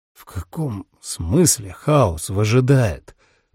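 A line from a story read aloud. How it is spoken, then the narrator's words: Hoarse wheeze. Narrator (Russian): прохрипел он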